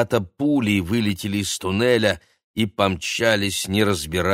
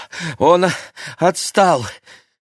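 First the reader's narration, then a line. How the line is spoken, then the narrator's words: Breathless wheezing boy. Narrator (Russian): тяжело дыша просипел мальчик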